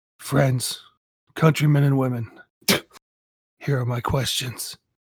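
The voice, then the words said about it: Dramatic reading voice. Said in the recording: “read in a dramatic voice ... In dramatic voice.”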